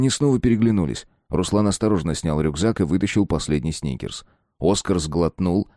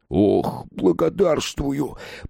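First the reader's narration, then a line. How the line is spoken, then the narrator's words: Mumbling with full mouth. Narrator (Russian): пробормотал он с набитым ртом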